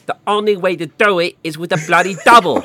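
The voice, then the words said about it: Imitates another person's voice. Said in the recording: “That was a good impression. ... Good, good Michael Cain.”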